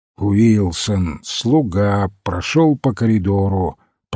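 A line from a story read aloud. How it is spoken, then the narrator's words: Grumbling. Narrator (Russian): пробурчал Олбойн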